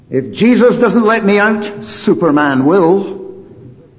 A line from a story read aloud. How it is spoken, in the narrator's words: when locked in the cupboard, banging and shouting, he was heard to cry out